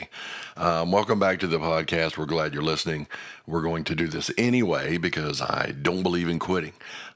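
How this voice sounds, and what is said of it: Hoarse, cracking voice. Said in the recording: “still sounding worse today ... losing my voice a little bit ... there's going to be some cracking in my voice”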